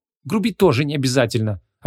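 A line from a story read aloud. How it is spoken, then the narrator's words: Indignant snapping. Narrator (Russian): огрызнулась Вон, возмущенная до глубины души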